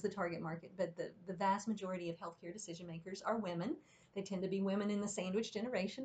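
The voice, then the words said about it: Slight Southern American accent. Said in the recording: “you'll hear the little blips of Southern accent in there ... You're getting a little bit of a Southern accent in there”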